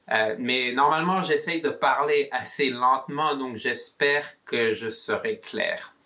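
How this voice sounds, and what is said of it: Mixed Belgian and southern French accent. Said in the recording (French): “mon accent sera un peu bizarre. Ma mère est belge... l'accent belge... J'ai vécu à Toulouse, en France... mon accent sera un peu compliqué.”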